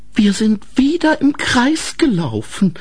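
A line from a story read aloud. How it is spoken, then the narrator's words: Sighing. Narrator (German): sagte Grete seufzend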